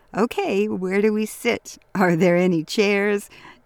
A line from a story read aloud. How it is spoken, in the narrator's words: Charlie chuckled